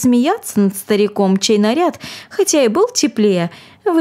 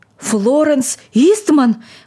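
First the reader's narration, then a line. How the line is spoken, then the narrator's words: Agitated old man's exclamation. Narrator (Russian): воскликнул старик в неудержимом волнении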